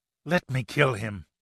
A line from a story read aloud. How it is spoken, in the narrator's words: hissed venomously